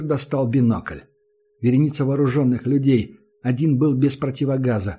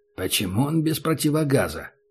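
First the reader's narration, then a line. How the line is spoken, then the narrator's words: Whispered question. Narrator (Russian): спросил Убер шепотом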